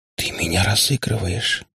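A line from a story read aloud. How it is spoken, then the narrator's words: Whisper. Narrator (Russian): прошептала Ирка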